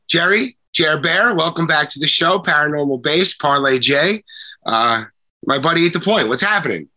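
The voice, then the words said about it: Stuffy, sick-sounding voice. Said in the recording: “Excuse my voice. I had a little cold this week, not COVID... A little upper respiratory or sinus something or other.”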